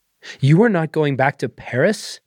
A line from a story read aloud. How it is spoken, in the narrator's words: Martine exclaimed